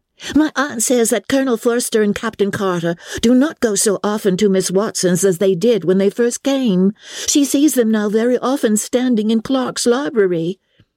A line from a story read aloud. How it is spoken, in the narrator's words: cried Lydia